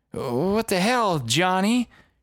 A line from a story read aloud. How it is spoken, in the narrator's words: slurred